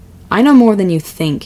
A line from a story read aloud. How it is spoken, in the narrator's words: snapped